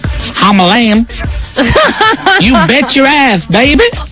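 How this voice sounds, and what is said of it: Put-on Texas accent. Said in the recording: “talk with a Texas accent”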